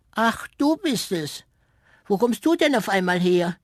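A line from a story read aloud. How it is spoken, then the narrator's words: Call. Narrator (German): rief es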